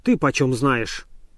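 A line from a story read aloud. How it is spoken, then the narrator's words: Angry question. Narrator (Russian): сердито спросил Обломов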